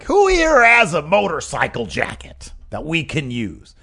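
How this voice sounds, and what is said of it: Weak Paul Heyman impression. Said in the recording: “That's Paul Heyman. It's not good? ... It's not your best impression.”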